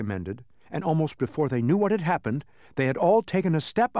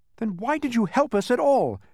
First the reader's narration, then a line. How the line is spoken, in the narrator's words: shouted Milo angrily